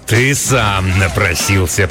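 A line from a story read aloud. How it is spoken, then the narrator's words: Growling. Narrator (Russian): прорычал он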